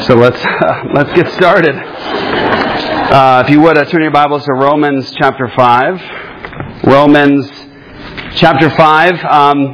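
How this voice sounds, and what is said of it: Speaks with a noticeable accent. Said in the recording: “I'm sorry about my accent.”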